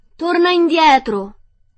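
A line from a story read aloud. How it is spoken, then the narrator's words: Yelling. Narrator (Italian): urlò Dorothy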